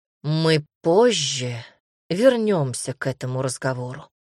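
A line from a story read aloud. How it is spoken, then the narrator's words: Sighing. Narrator (Russian): вздохнул Дамир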